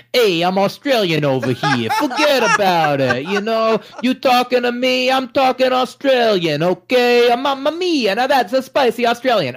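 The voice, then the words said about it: Bad Australian accent, sounds New York Italian. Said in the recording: “I'm not very good with us with accents ... that's terrible ... They don't like the New York Italian accent ... New York Italian was not, we think, far enough from my own accent”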